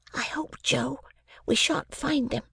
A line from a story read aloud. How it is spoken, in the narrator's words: I treasonably whispered to Joe